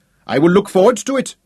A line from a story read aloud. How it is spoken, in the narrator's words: Althuda shouted